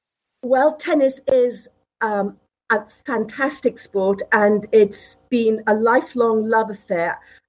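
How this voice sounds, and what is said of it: British accent. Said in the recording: “As you can probably hear from my accent, I'm originally from the UK”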